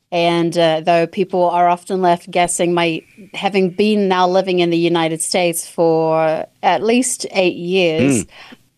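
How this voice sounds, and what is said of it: Slightly softened New Zealand accent. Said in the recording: “listeners will note your accent ... born and raised in New Zealand ... my accent tends to get watered down”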